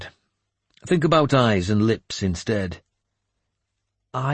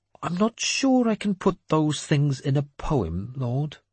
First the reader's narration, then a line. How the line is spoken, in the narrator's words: he said faintly